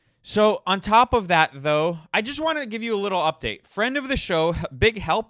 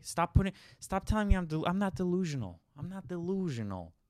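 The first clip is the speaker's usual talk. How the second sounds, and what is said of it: Put-on New York accent. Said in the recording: “that's my New York accent. Do you like it?”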